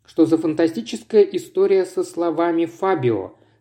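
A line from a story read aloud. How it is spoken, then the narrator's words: Plain question. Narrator (Russian): спросил Вадим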